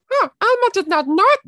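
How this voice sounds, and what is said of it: Falsetto Elmo puppet voice. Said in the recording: “Elmo, you can only do it if you're male because it's in a falsetto”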